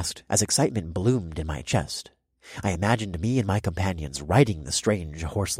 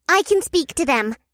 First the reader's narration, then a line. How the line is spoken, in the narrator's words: Ziti squeaked